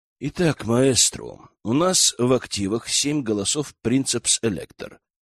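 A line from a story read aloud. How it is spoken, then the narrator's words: Quiet speech. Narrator (Russian): негромко проговорил Аркан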